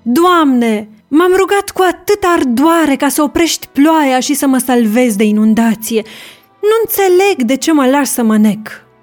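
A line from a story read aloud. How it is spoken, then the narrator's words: Old man's desperate cry. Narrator (Romanian): Într-un strigăt disperat, bătrânul a spus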